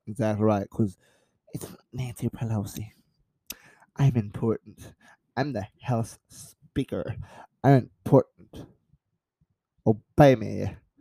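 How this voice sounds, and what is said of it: Impression of Nancy Pelosi. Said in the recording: “That was a pretty good impression, gotta admit. ... That was pretty solid.”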